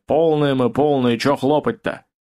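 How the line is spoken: Dull hollow reply. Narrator (Russian): Канистры отозвались глухо

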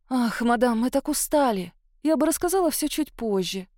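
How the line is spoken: Sigh. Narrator (Russian): вздохнула я

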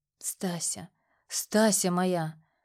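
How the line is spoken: Hoarse rasp. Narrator (Russian): просипел я

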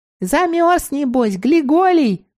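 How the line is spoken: Squeaking. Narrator (Russian): пискнула Мила

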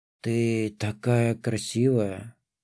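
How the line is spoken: Mumbling. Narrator (Russian): пробормотал я

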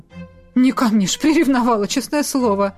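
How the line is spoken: Nervous laugh. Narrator (Russian): нервно хохотнула

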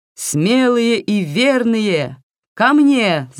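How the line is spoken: Ringing shout, old woman. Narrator (Russian): звонко крикнула бабушка

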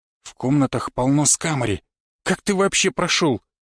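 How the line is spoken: Indignant whisper. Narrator (Russian): возмущенно прошептал

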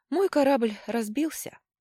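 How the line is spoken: Sighing. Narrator (Russian): вздохнул Дрык

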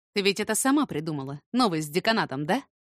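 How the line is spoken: Angry question. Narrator (Russian): спросил сердито

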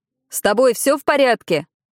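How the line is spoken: Driver shouting. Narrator (Russian): крикнул ей водитель

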